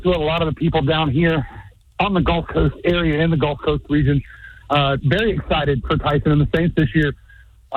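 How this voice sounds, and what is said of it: Out of breath speaker. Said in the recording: “Why are you so out of breath?”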